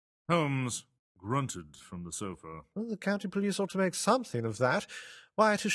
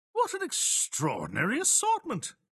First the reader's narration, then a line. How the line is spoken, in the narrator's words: exclaimed